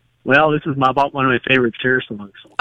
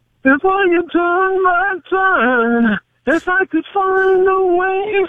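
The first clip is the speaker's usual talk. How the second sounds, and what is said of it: Sung imitation of another person's voice. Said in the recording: “How's your Cher impression?”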